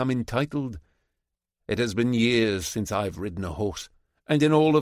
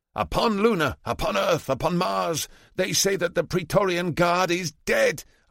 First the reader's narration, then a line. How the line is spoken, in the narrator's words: shout